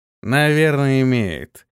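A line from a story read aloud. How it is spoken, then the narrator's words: Lazy. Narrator (Russian): лениво проговорил тот, что стоял справа от него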